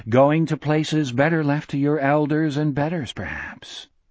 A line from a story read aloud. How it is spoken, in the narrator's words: Gardner went on in his mellow, regretful voice